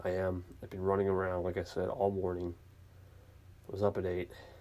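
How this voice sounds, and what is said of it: Tired-sounding voice. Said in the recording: “I sound very tired. ... I'm just beat.”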